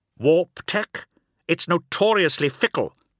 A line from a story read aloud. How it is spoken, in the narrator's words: snapped Omegon